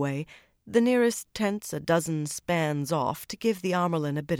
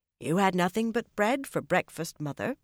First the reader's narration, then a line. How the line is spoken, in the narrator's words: Chesa said in a mildly accusing voice